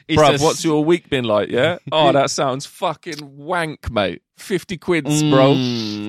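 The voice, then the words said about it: London road man accent. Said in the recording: “Is he also a sort of Lewisham Road man?”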